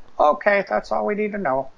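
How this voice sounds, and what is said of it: Lorne Michaels impression. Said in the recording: “That's your impression? ... That's your Lorne Michaels?”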